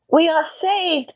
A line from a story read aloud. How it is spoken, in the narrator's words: Gretel shouted